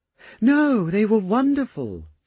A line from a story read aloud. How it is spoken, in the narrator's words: she exclaimed with an earnest smile